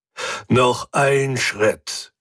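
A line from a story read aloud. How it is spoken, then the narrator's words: Growled. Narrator (German): knurrte Hubert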